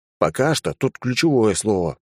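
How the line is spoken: Grumbling. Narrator (Russian): пробурчал я

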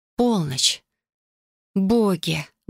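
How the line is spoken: Breathless exhale. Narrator (Russian): выдохнула

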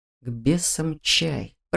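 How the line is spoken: Whisper against lips. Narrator (Russian): прошептал Раал мне в губы

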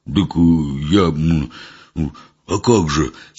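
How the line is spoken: Wheezing. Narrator (Russian): сипел Митька

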